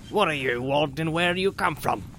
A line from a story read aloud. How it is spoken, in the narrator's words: he asked gruffly